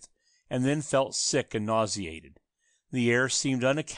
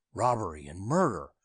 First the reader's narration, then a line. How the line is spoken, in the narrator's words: he whispered slowly to himself